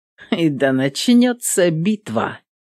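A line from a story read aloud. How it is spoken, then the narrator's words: Mocking. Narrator (Russian): Насмешливо произнесла Эвелин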